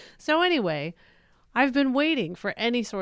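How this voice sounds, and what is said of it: Usual voice. Nothing is said of it.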